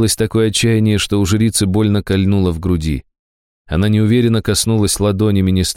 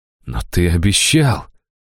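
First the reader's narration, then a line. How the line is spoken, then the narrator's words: Disbelieving breathy exclamation. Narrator (Russian): выдохнул Брэмстон, неверяще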